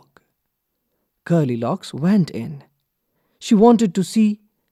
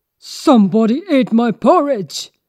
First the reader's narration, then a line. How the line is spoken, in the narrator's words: shouted Papa Bear in his big, gruff voice